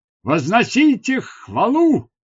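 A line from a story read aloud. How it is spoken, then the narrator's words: Shouted. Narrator (Russian): крикнула она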